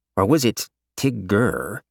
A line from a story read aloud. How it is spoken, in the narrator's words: Jin slurred his words oddly sometimes